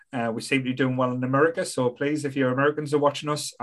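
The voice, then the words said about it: Speaker's own regional accent. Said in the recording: “I do apologise for my accent”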